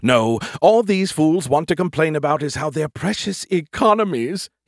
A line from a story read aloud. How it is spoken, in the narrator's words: he whined, disgusted